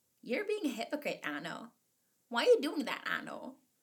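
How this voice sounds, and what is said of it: Puts on a conscience character voice. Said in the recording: “I don't know why I did that voice”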